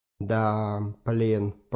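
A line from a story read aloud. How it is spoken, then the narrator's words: Drawn-out. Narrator (Russian): протянул Павел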